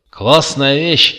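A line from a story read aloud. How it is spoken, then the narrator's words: Yelled. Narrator (Russian): с порога заорал Макс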